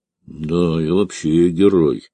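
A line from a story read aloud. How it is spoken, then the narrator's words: Muttering for something to say. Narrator (Russian): буркнул Алексей, чтобы хоть что-то сказать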